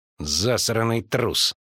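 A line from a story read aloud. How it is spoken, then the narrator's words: Snorting. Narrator (Russian): фыркнул Тавик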